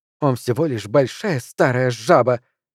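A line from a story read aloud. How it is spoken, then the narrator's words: Angry woman. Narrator (Russian): сердито заявила она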